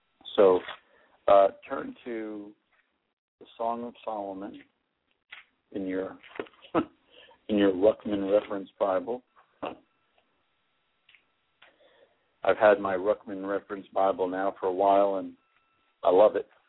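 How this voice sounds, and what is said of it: Hoarse, fading voice. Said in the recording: “I'm losing my voice very rapidly here.”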